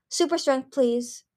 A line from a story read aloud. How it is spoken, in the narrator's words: she said breathlessly